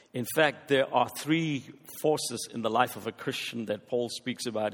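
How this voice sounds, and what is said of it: Speaks with a noticeable accent. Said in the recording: “I hope you will be able to follow my accent.”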